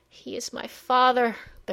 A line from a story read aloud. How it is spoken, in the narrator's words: the hurt child cried